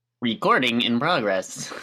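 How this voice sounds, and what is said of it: Cartoonish robot voice. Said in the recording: “your best robot voice ... Robot. That's like a Looney Tunes character.”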